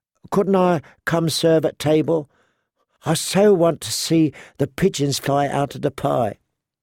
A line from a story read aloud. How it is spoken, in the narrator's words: said Shay wistfully